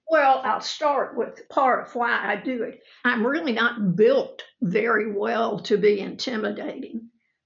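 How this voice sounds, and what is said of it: Southern drawl. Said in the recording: “I'm from the South with a Southern drawl.”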